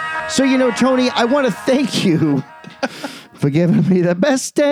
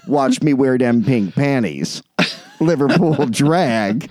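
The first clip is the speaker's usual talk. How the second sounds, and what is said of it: Imitates another person's voice. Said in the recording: “my Marv Albert impression”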